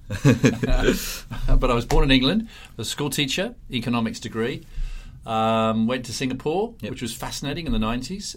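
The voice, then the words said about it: English accent with Australian tinge. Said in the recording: “my strange accent, listeners, that I'm English originally, although when I go back to England, they go, "You sound so Aussie."”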